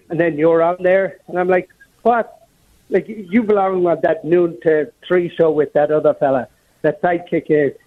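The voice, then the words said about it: Strong Minnesota South St. Paul accent. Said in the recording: “that South St. Paul accent really coming through there”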